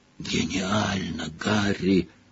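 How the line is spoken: Whisper. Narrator (Russian): прошептал Рон

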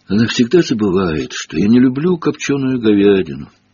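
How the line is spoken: Sad. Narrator (Russian): грустно произнес он

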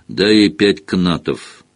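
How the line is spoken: Sleepy voice. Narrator (Russian): сонно произнес Хагрид

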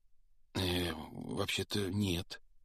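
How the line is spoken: Timid, forced out. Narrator (Russian): робко выдавил из себя Гарри

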